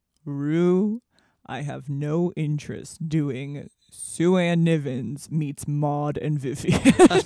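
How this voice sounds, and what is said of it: Imitates another person's voice. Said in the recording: “This is ... doing an impression of Rue doing an impression of Bea Arthur.”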